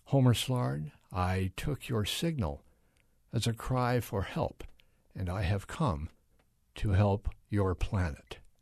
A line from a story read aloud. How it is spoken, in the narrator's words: the voice seemed to whisper